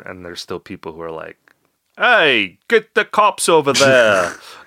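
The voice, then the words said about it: Poor put-on Australian accent. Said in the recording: “That's kind of an Australian accent. ... It was awful.”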